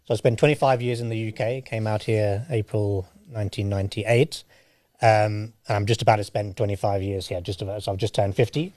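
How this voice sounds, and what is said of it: Mixed British accent. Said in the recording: “from the UK ... my accent is all over the place”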